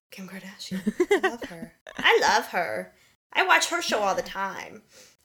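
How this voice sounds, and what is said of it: Generic old-lady foreign accent. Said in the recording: “I don't know what that accent was. I don't know. I was going for generic old, but I went with generic foreign.”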